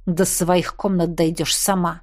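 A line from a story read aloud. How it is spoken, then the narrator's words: Growled. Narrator (Russian): прорычал Кхаанри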